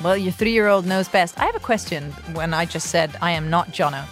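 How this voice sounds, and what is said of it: Mixed British and American accent. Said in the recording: “A mix of British and American ... You have a Dubai accent ... a really nice mix ... some words you say come out quite British”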